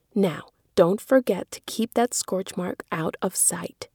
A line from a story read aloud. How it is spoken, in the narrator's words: whispered Meg